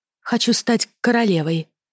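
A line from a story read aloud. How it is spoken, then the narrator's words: Quiet. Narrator (Russian): проговорила негромко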